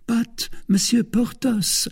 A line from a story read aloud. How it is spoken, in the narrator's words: murmured the procurator's wife